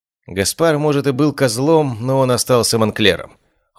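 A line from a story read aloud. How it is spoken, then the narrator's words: Cold speech. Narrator (Russian): холодно произнесла она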